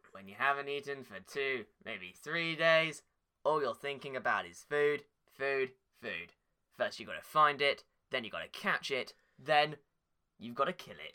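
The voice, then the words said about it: Imitates another person's voice. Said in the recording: “the Bear Grylls impersonation”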